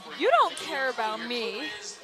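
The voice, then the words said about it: Put-on American accent. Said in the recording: “American accents ... Lisa Houseman accent ... That was totally Lisa Houseman.”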